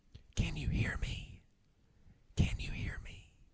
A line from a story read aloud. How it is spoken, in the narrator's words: he just whispered